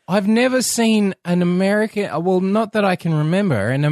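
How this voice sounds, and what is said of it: Usual voice. Nothing is said of it.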